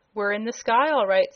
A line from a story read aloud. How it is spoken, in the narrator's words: said the girl